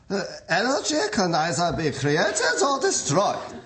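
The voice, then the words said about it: Thick German accent, Einstein impression. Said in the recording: “hit it, Einstein ... Put a little more sauerkraut in the accent.”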